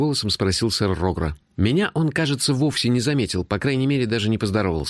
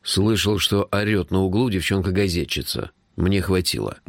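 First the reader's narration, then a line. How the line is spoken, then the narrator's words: Muttered. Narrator (Russian): буркнул Джуфин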